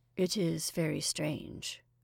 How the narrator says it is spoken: said Ormond gloomily

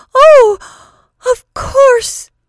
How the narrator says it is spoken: she cried hysterically

